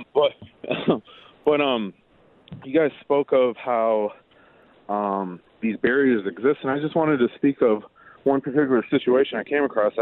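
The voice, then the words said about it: Out of breath, panting while talking. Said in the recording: “I'm out of breath. I'm working right now.”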